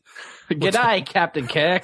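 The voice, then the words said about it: Put-on Australian accent. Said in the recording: “the voice from Tantalus was an Australian accent.”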